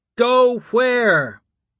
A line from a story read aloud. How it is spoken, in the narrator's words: Someone yelled